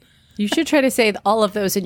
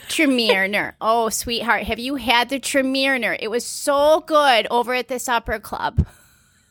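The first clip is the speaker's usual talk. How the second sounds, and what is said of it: Put-on Midwestern accent. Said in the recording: “in your best Midwest accent”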